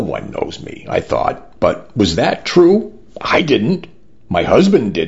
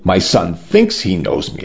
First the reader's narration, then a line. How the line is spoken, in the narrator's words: I said